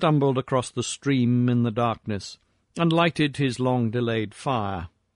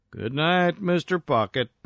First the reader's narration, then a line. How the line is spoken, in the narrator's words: he called sleepily